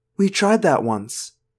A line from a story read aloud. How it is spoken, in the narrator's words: Cassie said quietly